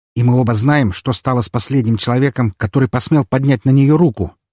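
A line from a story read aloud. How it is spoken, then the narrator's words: Sharp interruption. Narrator (Russian): Резко перебил я его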